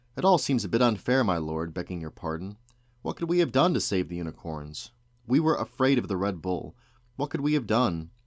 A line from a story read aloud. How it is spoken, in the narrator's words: a middle-aged woman stepped forward and said with some spirit